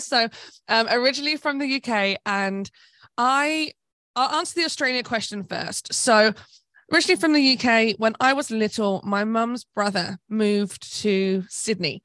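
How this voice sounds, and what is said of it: British English accent. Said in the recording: “originally from the UK, I think I've got my twang back a little bit ... if I spend more time around UK people, my UK twang comes back”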